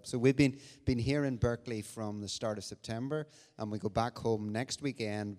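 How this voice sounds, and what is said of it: Irish accent. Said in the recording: “You can probably recognize an Irish accent”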